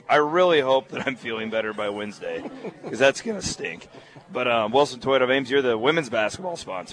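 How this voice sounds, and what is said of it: Hoarse, fading voice. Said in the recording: “I'm losing my voice again”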